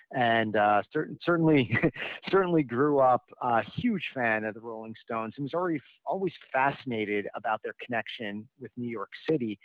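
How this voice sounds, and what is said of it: New York accent. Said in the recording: “I'm a native New Yorker, if you can't tell from my accent,”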